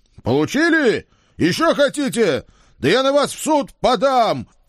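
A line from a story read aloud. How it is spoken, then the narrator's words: Happy yelling. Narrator (Russian): счастливо орал я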